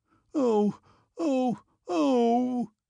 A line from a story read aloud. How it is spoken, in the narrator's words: he sobbed like a woman